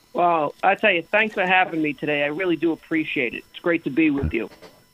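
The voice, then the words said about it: New York Bronx accent. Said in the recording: “I love that New York accent ... From the Bronx”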